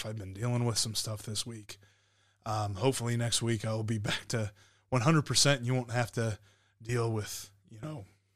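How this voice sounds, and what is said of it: Rough, slightly hoarse voice. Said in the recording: “my voice is a little bit rough”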